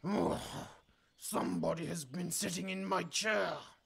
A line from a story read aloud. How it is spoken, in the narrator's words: he bellowed in his big, growly voice